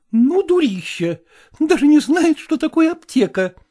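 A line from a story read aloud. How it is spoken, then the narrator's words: Exclamation. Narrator (Russian): воскликнула Евгения Ивановна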